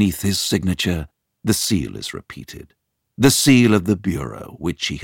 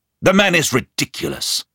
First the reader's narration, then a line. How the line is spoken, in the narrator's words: I shout